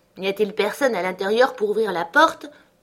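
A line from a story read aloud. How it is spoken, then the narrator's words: Shouted reply. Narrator (French): lui criai-je en réponse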